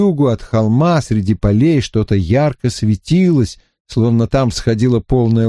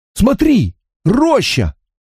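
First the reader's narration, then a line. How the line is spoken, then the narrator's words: Timid, forcing boldness. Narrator (Russian): сказал Гэмбл, стараясь избавиться от неожиданно овладевшей им робости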